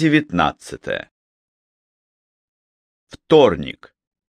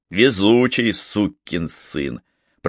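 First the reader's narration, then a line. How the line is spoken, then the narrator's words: Through gritted teeth. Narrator (Russian): процедил сквозь зубы Марлоу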